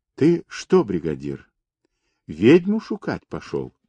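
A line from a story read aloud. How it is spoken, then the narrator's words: Quiet speech. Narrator (Russian): негромко проговорила Анютка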